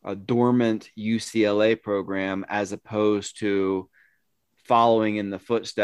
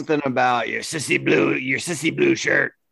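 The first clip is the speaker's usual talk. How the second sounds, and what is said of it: Impression of Coach O. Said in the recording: “That's a great impression.”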